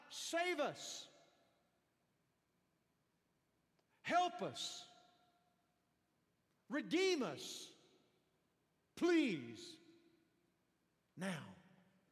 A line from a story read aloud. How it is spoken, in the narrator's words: They were shouting out